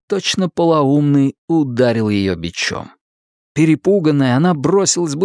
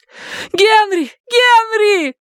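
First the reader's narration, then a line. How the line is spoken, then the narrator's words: Female scream. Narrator (Russian): закричала она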